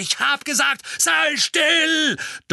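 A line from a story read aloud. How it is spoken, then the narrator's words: Thunderous roar. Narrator (German): donnerte der Mann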